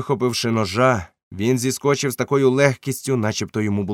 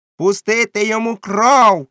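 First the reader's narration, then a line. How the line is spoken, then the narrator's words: Shouted, cursing. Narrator (Ukrainian): крикнув Морган і вилаявся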